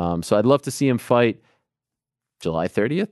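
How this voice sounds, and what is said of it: Usual voice. Nothing is said of it.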